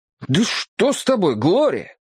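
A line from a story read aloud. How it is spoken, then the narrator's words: Shocked exclamation. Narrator (Russian): воскликнул я, потрясенный несправедливым обвинением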